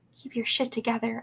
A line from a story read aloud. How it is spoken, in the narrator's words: I whispered to my lungs